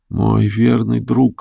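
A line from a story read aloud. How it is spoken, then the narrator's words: Barely audible. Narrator (Russian): сказала Луси чуть слышно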